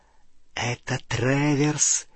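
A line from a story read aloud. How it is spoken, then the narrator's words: Hiss into ear. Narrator (Russian): прошипел гоблин на ухо Гарри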